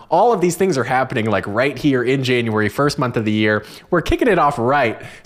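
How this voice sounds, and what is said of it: Excited, hyped-up voice. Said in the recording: “you can hear it in my voice. I'm just so hyped”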